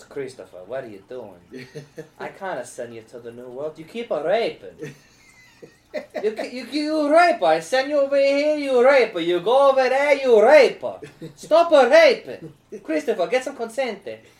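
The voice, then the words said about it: Put-on Italian accent. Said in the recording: “I just say rape in an Italian accent for a little long.”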